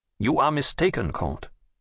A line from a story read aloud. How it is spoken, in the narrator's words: said the king firmly